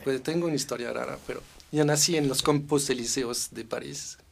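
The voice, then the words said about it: French accent speaking Spanish. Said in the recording (Spanish): “obvio francés, que no estás oyendo el acento”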